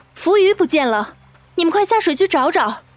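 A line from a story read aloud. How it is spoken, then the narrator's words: Shouting while running. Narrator (Chinese): 边跑边指着河里大喊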